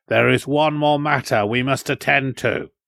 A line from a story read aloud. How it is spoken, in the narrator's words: Ayla went on, his voice suddenly stern